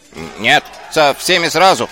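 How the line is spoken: Shouting. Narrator (Russian): прокричал Шнопс

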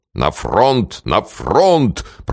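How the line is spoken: Deep booming voice. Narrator (Russian): прогудел генерал

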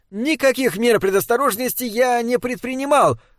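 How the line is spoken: Shouted. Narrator (Russian): выкрикнул он в их потрясенные физиономии

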